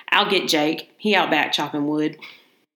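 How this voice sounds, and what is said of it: Put-on Southern accent. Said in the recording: “I'm going to do a southern accent here.”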